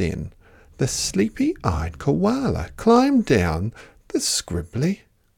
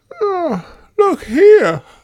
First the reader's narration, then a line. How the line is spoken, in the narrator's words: yawned